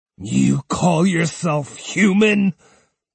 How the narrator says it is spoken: Takezo spat

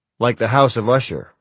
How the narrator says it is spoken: I said

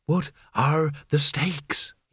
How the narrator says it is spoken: He whispered

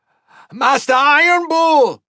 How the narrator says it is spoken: Calren shouted

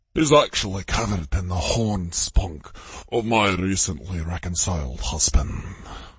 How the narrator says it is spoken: Kevin growled

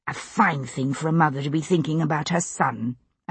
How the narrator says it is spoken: I said under my breath, though I could neither keep the amusement out of my own voice

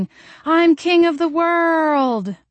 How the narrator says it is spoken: Zeb stood behind Jolene, stretching out their arms and screaming

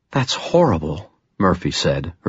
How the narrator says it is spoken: her voice a whisper

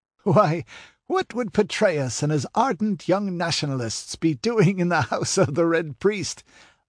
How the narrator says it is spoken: laughed Nabonidus

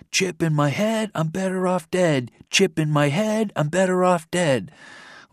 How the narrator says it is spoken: They were shouting

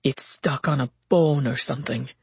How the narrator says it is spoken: the other one growled

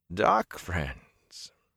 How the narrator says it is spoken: Niall's chuckle held no amusement

